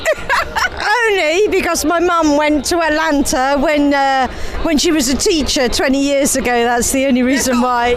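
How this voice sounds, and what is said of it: English accent. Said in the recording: “Aren't these accents beautiful? I love hearing the English accent.”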